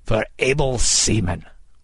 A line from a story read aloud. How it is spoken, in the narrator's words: Kidd cried